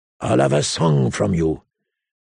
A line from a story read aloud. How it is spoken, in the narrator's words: he rasped